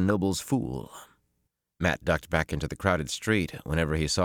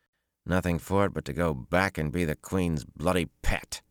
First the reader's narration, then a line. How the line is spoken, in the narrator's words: he growled